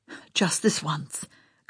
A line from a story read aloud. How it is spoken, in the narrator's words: Carl whispered